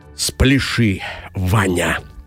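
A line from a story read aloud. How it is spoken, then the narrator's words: Quiet, affectionate. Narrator (Russian): тихо и ласково сказала самая умная голова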